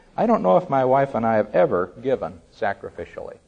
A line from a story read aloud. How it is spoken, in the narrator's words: said quietly